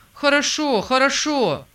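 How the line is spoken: Joyful reply. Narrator (Russian): откликнулся радостно Питер

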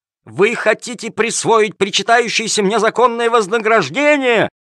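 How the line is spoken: Yelling while struggling. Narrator (Russian): вопил Калимер, вырываясь из рук жандармов

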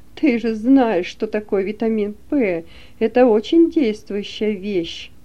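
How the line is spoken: Drunken laughing. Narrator (Russian): пьяно смеясь и приговаривая

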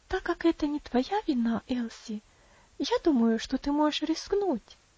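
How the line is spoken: Gentle, affectionate. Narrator (Russian): ласково сказала Роза

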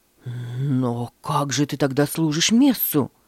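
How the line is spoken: Shocked exclamation. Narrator (Russian): воскликнул потрясенный Луис

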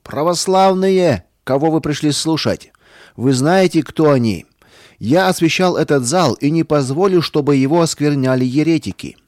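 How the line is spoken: Loud. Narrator (Russian): священник громко сказал

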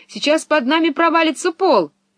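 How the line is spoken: Shouted. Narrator (Russian): Пеппи закричала

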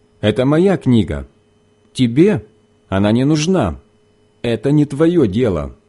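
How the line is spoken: Sharp reply. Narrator (Russian): она резко ответила

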